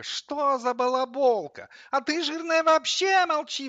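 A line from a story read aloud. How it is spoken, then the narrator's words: Wailing, getting worked up. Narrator (Russian): взвыла кофемолка, заводясь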